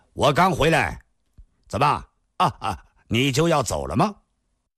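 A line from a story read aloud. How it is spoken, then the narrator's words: Loud. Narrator (Chinese): 郭松阳大声地说道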